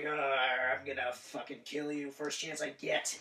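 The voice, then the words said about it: Menacing villain character voice. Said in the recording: “That's a pretty good impression... That was really good.”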